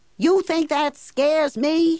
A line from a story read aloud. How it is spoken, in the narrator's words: he shouts